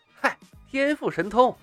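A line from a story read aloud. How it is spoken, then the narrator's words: Smiling. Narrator (Chinese): 李海龙笑了笑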